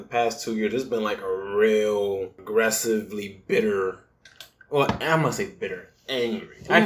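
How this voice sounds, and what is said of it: Usual voice. Nothing is said of it.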